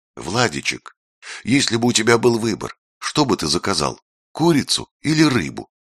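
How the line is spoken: Gentle question. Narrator (Russian): она ласково спросила

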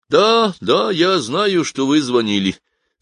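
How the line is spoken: Sad. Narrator (Russian): сказал брокер и печально

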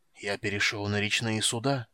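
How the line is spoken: Hoarse wheeze. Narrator (Russian): прохрипел он наконец

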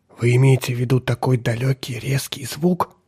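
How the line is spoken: Whispered. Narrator (Russian): прошептала она

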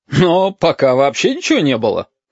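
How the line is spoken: Red ball chuckling. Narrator (Russian): хохотнул красный шар

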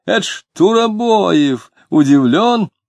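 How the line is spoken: Awkward laughing proclamation. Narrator (Russian): Дмитрий нелепо захохотал, возглашая

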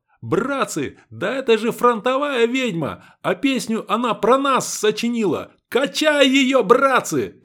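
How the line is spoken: Sudden shout, soldier. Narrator (Russian): Неожиданно один из бойцов закричал

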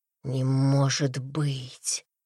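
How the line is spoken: Breathless. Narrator (Russian): выдохнул Павел

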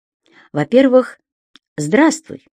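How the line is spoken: Calm. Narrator (Russian): спокойно сказал Синицын

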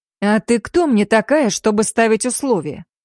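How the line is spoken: Angry. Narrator (Russian): зло произнес Адам

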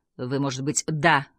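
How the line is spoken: Gruff mutter. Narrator (Russian): буркнул Берли

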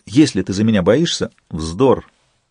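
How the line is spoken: Plain. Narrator (Russian): сказал Сварог

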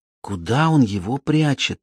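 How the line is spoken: Quiet question. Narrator (Russian): тихонько спросила Лиззи

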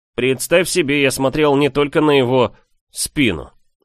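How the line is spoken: Smirking snort. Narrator (Russian): хмыкнул Микаэль

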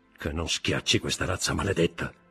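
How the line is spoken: Murmur. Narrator (Italian): mormorò

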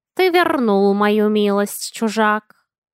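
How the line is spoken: Purring cat. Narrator (Russian): Замурлыкал кот

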